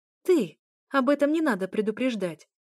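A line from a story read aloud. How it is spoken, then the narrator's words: Helpless exclamation. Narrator (Russian): воскликнула я, понимая, что опять у меня ни капли аргументов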